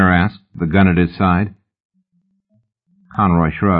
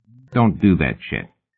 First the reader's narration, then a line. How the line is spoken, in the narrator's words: he said